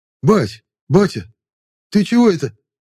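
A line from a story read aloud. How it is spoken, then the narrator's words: Agitated cry, youth. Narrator (Russian): взволнованно вскрикнул паренек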